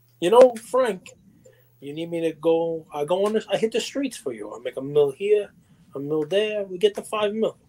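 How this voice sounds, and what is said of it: Imitates an actor's accent, badly. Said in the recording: “I did a horrible version of Al Pacino's horrible accent. ... That was Scarface.”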